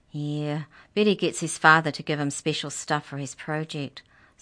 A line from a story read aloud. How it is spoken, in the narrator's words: sighed Chad